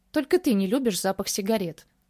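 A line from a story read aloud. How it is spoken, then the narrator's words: Smirking reply. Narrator (Russian): Хмыкнул в ответ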